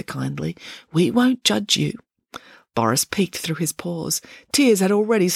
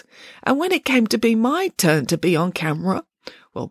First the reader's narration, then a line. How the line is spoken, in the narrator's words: Boris sobbed, <gasps>